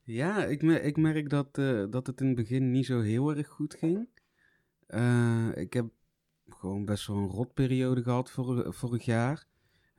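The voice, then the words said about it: Brabant Dutch regional accent. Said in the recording (Dutch): “zijn uh, verrukkelijke Brabantse accent ... ik ga het maar gewoon bij mijn Brabants houden”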